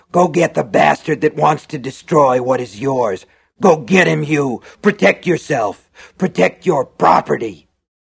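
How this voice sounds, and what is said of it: Low, harsh character voice. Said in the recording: “he cried in a low, harsh voice”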